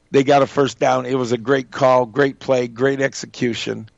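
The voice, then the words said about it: Slightly strained voice. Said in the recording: “I yelled and screamed. That's why my voice is kind of strained a little this morning.”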